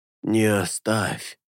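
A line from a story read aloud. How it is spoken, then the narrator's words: Weak breathless. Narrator (Russian): Слабо выдохнул Алета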